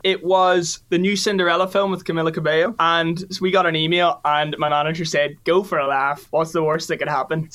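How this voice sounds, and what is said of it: Northern Irish accent. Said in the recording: “I'm the biggest Nordy head ever, Northern Irish accent on me”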